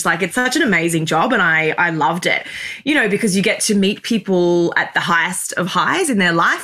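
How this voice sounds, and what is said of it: Australian accent. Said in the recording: “I'm Australian, hence my accent”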